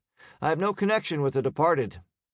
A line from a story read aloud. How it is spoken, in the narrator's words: kept his tone light